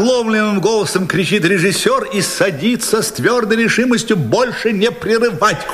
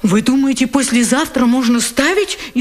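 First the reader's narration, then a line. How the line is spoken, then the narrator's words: Frightened question. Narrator (Russian): испуганно спрашивает автор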